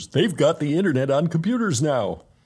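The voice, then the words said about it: Poor Homer Simpson cartoon impression. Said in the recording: “That was a terrible imitation of Homer Simpson”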